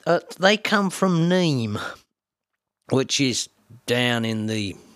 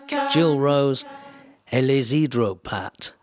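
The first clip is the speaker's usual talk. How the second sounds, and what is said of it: Put-on French accent. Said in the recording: “Beautiful French accent there. It slips sometimes.”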